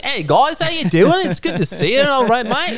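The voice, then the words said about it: Fake Australian accent. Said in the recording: “your fake Australian accent”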